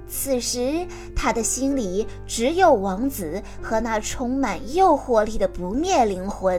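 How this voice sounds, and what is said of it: Usual voice. Nothing is said of it.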